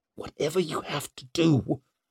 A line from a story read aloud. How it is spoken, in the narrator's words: whispered Leo